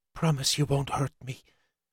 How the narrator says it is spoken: She whispered

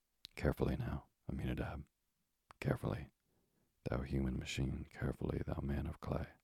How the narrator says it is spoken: muttered Alamer, more to himself than his assistant

